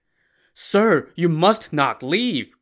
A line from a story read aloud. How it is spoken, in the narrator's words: Grandpa Liu begged